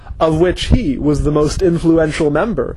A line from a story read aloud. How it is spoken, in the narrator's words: said Gar